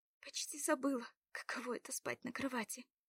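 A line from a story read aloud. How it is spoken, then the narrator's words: Whisper with a sigh. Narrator (Russian): прошептала со вздохом она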